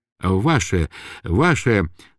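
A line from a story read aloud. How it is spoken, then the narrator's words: Quiet toothless mumbling, old man. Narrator (Russian): шамкал и шаркал тихонько старик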